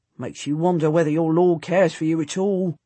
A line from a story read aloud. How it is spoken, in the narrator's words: he grumbles